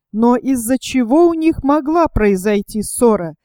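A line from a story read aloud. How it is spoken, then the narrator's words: Plain question. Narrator (Russian): спросил Генкок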